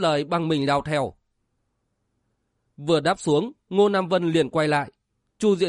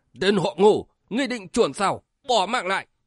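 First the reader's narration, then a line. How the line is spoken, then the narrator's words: Shouted. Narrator (Vietnamese): Dạ Hiêu tiền vệ quát lên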